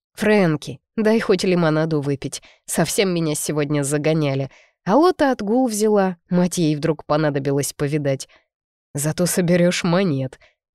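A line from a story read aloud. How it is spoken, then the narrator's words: Man's chuckle. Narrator (Russian): хохотнул мужчина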